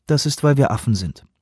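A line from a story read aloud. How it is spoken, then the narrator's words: Dry. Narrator (German): sagt Oliveira trocken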